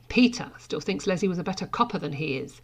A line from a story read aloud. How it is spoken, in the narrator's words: Sara smiled sharply